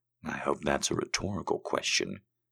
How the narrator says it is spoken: he whispered

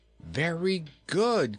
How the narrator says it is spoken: cried Inga

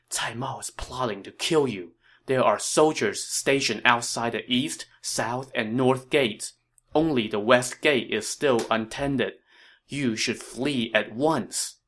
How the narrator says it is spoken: he whispered in Liu Bei's ear

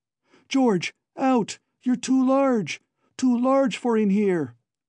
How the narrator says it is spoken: Alan was aware of himself screaming

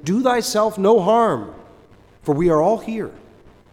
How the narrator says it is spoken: Paul cried with a loud voice, saying

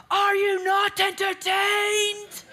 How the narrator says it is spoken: he yells at them, he screams at them

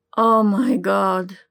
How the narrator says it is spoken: moaned, all but collapsing against him as he fed the pleasure directly back into the younger man

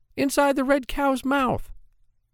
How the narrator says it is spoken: shouted

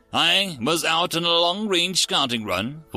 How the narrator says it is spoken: said with a sigh

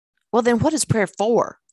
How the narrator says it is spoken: asked sharply

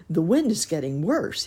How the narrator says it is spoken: he shouted

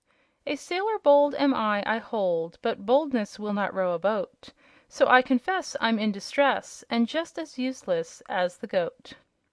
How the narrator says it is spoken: he sang in a merry voice

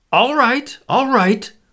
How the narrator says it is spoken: he screamed

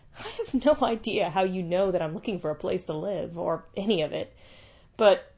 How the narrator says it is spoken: John laughed

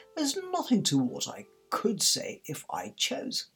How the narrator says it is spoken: the Duchess replied in a pleased tone

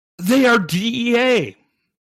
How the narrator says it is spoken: El Chapo yelled

